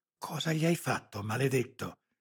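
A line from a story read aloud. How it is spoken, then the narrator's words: Anguished hiss. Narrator (Italian): sibilò Lara, angosciata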